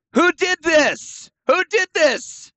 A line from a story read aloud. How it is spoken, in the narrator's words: <laughs> I shout